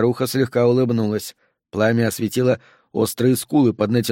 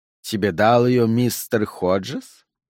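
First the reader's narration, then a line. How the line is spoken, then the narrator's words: Mocking question. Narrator (Russian): насмешливо осведомилась Мелани Фуллер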